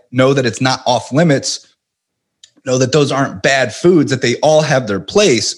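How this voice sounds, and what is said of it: Strained, failing voice. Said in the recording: “I'm losing my voice here for some reason. I'm like struggling to get my words out without coughing”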